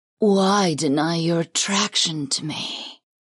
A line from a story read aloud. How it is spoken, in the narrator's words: the Arkin purred, and the slight rasp to her voice was impossibly sexy